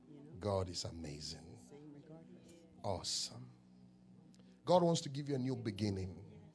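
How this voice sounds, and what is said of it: Ghanaian accent. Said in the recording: “Not an American, I'm from Ghana. ... My accent is different.”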